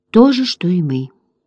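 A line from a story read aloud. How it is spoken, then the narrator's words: Quiet explanation. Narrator (Russian): тихо пояснил Утюг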